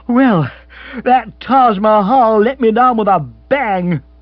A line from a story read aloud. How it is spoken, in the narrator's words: he said bitterly